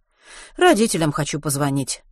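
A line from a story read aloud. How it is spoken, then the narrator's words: Sighing. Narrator (Russian): вздохнул врач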